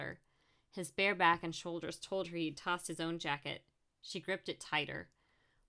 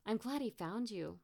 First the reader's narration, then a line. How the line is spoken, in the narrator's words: Brooke gasped